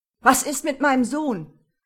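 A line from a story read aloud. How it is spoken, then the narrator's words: Shouting at nurse. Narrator (German): schrie er die Schwester an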